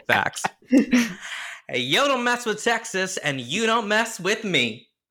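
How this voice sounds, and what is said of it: Put-on Southern US accent. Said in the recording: “she's from Dallas, so she has a Southern accent, and the only South I'm from is Korea ... That was really good ... You did it better than Leanne, too.”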